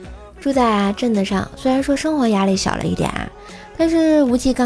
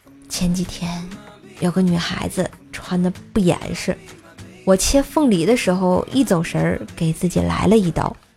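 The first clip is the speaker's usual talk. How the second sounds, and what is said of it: Quiet, hushed voice. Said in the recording (Chinese): “小声说”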